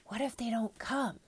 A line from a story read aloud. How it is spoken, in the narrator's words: said the private in a whisper